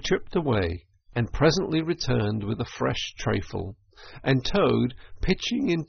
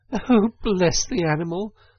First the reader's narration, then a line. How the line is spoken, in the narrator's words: said the girl, laughing